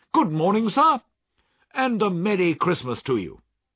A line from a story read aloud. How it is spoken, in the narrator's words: Three or four men said cheerfully